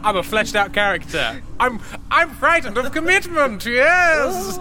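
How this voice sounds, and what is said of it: Silly character voice. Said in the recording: “silly voice”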